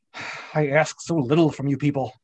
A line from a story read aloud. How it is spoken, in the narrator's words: he added through clenched teeth